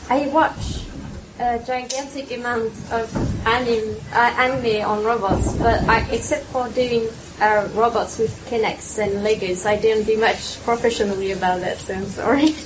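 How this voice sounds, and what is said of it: Noticeable foreign accent in English. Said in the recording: “my accent is a bit difficult to understand”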